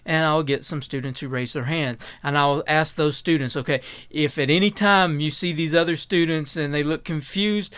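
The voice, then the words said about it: Eastern Kentucky mountain accent. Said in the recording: “from Eastern Kentucky... I cut off a syllable there... my natural accent, my natural dialect”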